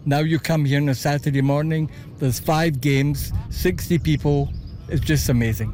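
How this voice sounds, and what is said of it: Scottish Glasgow accent. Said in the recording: “your accent ... Originally from Glasgow”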